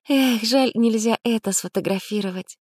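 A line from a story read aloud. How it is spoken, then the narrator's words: Sigh. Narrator (Russian): вздохнула Анна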